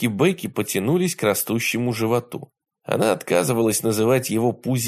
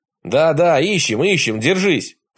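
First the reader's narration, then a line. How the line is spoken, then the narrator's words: Roaring. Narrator (Russian): проревел ее брат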